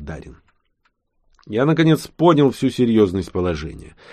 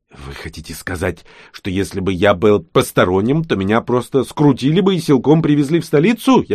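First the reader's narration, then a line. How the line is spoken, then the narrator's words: Contemptuous snort. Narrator (Russian): я презрительно хмыкнул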